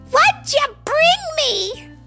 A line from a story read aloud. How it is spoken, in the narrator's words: They screamed